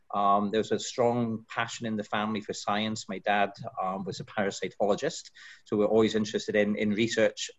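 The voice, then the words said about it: Scottish accent. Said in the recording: “you can tell from the accent, I've not always been in this country... I grew up in Scotland”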